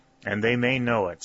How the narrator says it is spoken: said the colonel

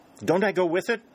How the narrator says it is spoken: exclaimed pleadingly

